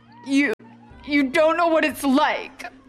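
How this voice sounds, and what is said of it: Emotional, angry, near tears. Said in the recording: “got emotional ... full of anger, but also tears started forming in his eyes”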